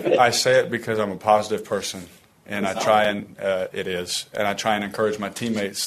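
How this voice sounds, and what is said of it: Southern American accent. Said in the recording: “speaking with a Southern accent”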